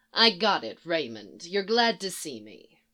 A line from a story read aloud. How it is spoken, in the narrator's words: Palmer with a mutter of